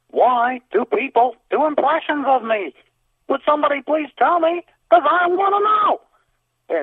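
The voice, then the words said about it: Imitates another person's voice. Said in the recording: “I'd like to do my impression of Jerry Seinfeld for you”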